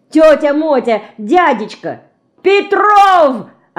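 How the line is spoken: Desperate yell. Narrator (Russian): Отчаянно заорал Шпик

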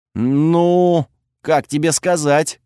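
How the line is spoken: Strained. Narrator (Russian): выдавил я

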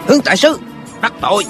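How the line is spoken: Man shouting. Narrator (Vietnamese): một tên hán tử quát lên

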